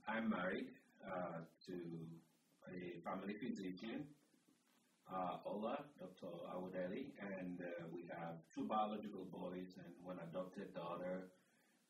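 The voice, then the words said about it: African accent mixed with American. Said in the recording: “my accent, if you're wondering, is somewhere from Africa, mixed with Jersey and 20 years of Omaha”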